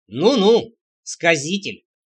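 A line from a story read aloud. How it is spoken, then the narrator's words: Wry snort. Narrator (Russian): хмыкнул Трэмп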